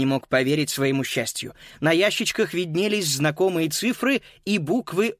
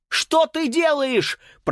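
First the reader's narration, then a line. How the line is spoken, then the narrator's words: Shrill scream. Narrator (Russian): пронзительно завопил Макс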